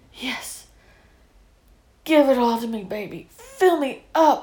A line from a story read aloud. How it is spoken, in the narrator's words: cried